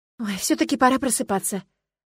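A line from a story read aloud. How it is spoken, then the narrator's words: Sighing. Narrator (Russian): решила вздохнув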